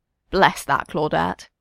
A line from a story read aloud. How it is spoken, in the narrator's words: murmurs